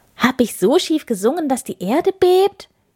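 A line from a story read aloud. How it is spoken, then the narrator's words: Called out, clinging together. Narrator (German): rief Schorsch, während sich beide fest aneinander klammerten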